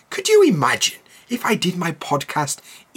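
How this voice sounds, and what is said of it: Posh Queen-like British accent. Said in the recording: “not all British people speak like the Queen. I do not speak like the Queen at all ... in this kind of voice and this kind of accent? ... that is completely different to how I actually sound”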